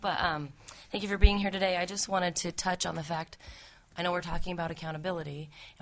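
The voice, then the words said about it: Weak, recovering voice. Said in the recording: “Pardon my voice. It's trying to come back.”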